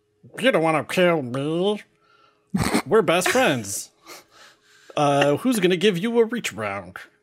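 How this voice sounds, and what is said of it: Put-on chubby character voice. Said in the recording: “I'll try to do my chubby voice. ... do a chubby voice. All your voices are your chubby voice.”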